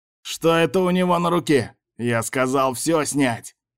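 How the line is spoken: Madman yelling. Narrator (Russian): орал тот псих, что называл себя богом

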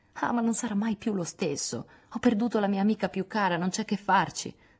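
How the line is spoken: Sighing. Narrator (Italian): sospirò Joe

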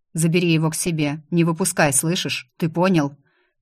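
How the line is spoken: Grim curt. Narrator (Russian): Адам мрачно бросил

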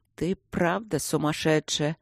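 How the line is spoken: Hopeless grumbling inner voice. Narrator (Russian): безнадежно проворчал внутренний голос

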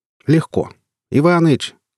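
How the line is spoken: Shouting toward the house. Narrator (Russian): крикнул в сторону дома

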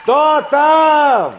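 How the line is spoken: Shouted from afar. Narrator (Russian): кричали им с берега

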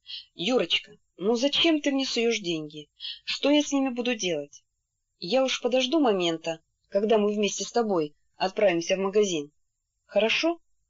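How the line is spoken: Said quietly. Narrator (Russian): она сказала тихо

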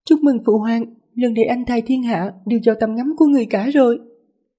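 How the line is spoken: Smiling. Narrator (Vietnamese): tứ công chúa Lý Ngư mỉm cười nói

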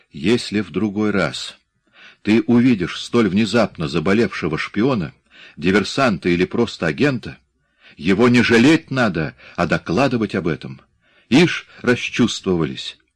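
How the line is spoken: Calmer tone. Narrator (Russian): сказал уже более спокойным тоном

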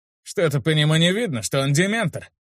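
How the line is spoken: Skeptical snort. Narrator (Russian): Недоверчиво хмыкнул Утес

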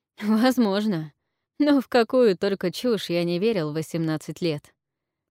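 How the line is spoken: Chuckling. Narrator (Russian): хохотнул Элайджа

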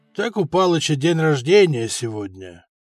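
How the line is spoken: Weary repetition, middle-aged man. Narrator (Russian): коренастый мужчина лет 50 уже немного устало, в неизвестно который раз повторял

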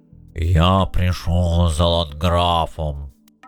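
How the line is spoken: Booming demand. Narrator (Russian): Бронзовый дуболом гулким голосом потребовал

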